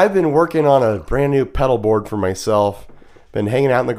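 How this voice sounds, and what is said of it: Usual voice. Nothing is said of it.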